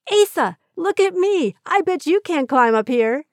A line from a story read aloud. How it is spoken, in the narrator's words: proudly exclaimed